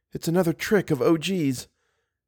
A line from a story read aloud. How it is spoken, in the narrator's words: Suddenly whispered